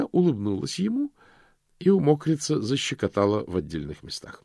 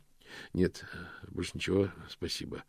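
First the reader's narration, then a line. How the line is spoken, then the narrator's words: Muttering. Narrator (Russian): пробормотал Мокриц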